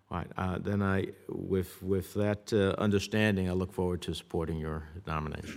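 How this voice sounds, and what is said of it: Tough New Jersey accent. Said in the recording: “New Jersey tough accent”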